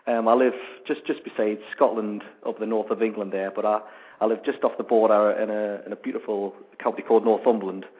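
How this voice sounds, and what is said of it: Strong northern English accent. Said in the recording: “I've got a very, very strong accent... I have got a very, very northern accent, but not as northern as I used to have”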